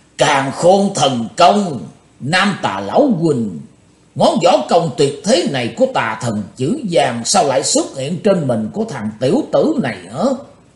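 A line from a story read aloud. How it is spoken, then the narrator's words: Roaring. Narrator (Vietnamese): Bắt đọc lão ma gầm tợ sống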